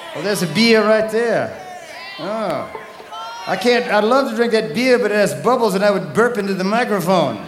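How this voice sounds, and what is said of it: Southern American accent. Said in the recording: “I got this southern accent problem, you know, like beer.”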